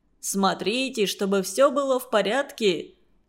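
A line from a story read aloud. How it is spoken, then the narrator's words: Stern. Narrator (Russian): строго сказал он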